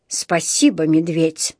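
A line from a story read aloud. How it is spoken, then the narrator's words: Gruff mutter. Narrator (Russian): буркнул мистер Карри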